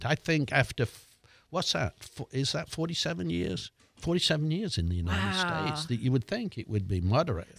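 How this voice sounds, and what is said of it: English accent. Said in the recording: “you're keeping your English accent”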